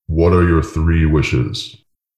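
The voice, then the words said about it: Genie voice impression. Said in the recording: “Great impression.”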